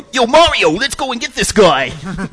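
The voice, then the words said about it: Cartoon character with Brooklyn accent. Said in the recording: “Toad impression ... Has like from Brooklyn ... He's got Brooklyn accent”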